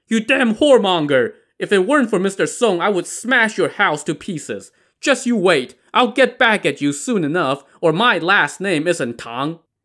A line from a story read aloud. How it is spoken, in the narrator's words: Feeling the sting of the two literal slaps to the face, Tang the Ox stood outside and shouted